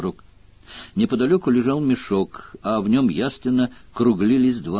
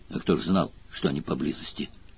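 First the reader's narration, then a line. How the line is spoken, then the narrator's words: Deep unrepentant voice. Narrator (Russian): пробасил гном без малейшего раскаяния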